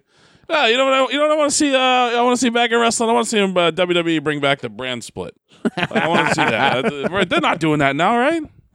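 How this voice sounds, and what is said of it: Impression of Mike Crockett. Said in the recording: “when we do an impersonation of Mike Crockett ... It's my impersonation of Mike Crockett.”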